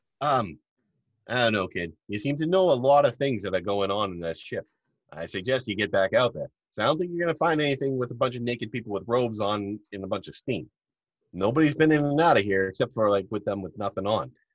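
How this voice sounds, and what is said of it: Character voice with put-on accent. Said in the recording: “I love his accent.”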